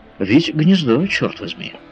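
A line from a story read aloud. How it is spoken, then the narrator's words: Cheerful reply. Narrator (Russian): весело отозвался Паганель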